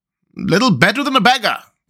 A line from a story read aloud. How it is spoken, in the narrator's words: cried the town councillors